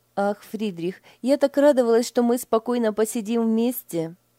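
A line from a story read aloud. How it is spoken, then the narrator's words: Sighing. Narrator (Russian): Вздохнула Лиля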